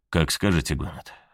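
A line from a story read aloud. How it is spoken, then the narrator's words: Calm reply. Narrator (Russian): спокойно ответил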